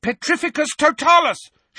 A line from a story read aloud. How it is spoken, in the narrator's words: shouted Harry